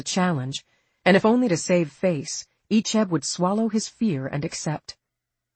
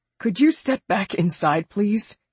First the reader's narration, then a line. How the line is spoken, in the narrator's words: Icheb asked, his voice tight